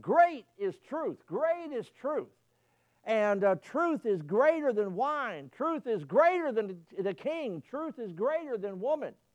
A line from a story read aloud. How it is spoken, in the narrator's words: the crowd of people at the feast of Darius, they were shouting